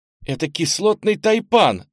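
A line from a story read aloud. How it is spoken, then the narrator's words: Frightened cry. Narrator (Russian): испуганно вскрикнула Фластра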